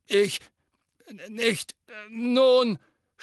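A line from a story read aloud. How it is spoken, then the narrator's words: Stammering. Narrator (German): stammelte Fudge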